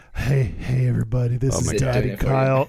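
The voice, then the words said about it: Put-on low, sexy voice. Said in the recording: “low lawyer daddy voice ... in my cool, sexy voice ... No, it's not working.”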